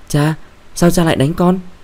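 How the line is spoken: Stunned, then shouting. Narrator (Vietnamese): sững sờ từ ở, Mãi cô mới hét lên

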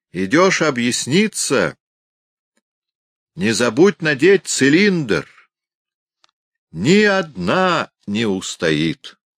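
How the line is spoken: Host shouting with laughter. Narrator (Russian): хозяин с хохотом крикнул им вслед

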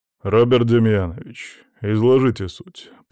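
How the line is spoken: Deep bass voice. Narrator (Russian): пробасил полковник Рыжов

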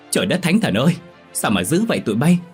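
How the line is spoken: Crying out. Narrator (Vietnamese): Má la lên

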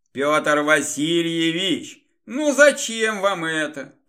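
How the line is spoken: Disgusted grumble. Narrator (Russian): пробурчал с отвращением

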